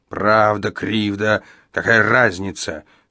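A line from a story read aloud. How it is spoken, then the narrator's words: Growling, increasingly irritated. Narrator (Russian): прорычал Иеремия, раздражаясь все больше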